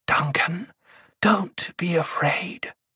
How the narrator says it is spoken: she whispered

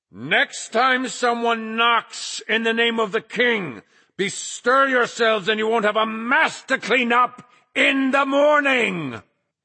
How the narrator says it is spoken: Flagg bellowed

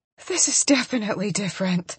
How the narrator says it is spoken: I gasp as Coop drives up into me

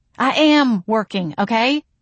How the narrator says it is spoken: I exclaimed

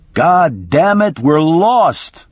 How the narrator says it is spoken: my attorney was shouting

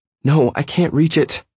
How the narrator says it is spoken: she cried

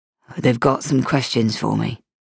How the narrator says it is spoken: Michael said, his voice flat

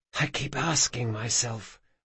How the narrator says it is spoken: whispered Sabatha

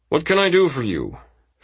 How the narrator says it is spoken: Freeman said in a businesslike tone

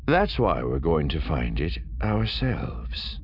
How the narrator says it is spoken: Thrawn said calmly

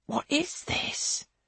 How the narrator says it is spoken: he whispers

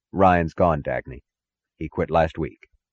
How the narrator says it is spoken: said, his voice as even as hers

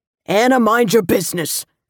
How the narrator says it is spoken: Carlo snapped

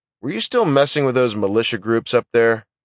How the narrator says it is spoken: Teague grunted

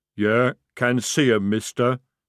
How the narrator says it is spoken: he rumbled

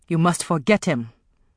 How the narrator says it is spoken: Afi told her harshly

